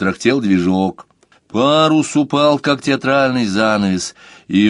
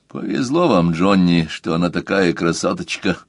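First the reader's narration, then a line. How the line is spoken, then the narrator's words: Quiet. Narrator (Russian): тихо сказал Хольц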